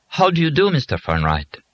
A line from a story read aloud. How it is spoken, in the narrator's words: Miss Yoyez asked him in a heavily accented voice